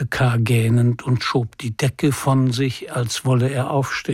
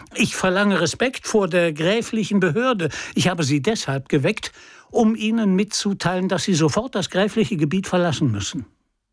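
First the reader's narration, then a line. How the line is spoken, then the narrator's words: Calling. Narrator (German): rief er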